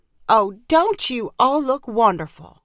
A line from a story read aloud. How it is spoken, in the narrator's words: cried Aunt Lily